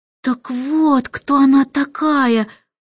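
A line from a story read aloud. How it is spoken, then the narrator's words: Breathed out. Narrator (Russian): выдохнул Майкл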